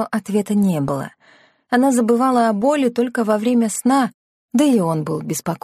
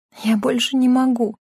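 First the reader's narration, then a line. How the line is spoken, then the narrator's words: Whisper. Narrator (Russian): прошептала она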